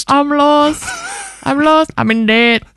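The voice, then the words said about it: Badly put-on accent. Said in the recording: “It's a terrible impression of an accent.”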